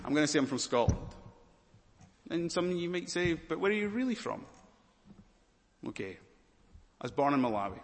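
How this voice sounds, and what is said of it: Scottish accent. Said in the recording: “Can you hear the accent? ... I'm Scottish”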